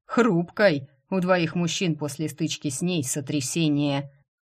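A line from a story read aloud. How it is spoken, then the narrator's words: Snorting, then choking. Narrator (Russian): Хмыкнул Лейтер и тут же поперхнулся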